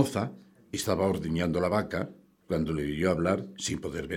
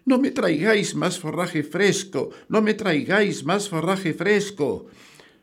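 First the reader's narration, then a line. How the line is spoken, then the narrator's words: Terrified, shouting with full force. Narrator (Spanish): presa del miedo, gritó con todas sus fuerzas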